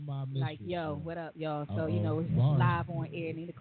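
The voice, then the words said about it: Low, sexy character voice. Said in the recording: “do my sexy voice ... I'm about to do my Nina Capone voice ... they voice is low and sexy”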